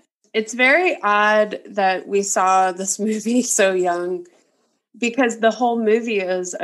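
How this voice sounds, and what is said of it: Usual voice. Nothing is said of it.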